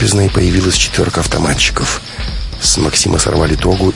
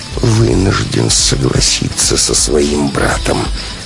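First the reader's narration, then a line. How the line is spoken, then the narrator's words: Icy tone. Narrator (Russian): ледяным тоном сказал брат Молот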